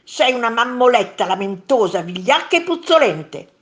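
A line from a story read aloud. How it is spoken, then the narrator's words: Monster shrieking. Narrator (Italian): strillò il secondo mostro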